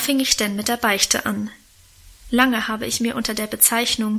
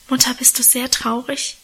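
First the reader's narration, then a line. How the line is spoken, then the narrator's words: Whispered. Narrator (German): flüsterte ich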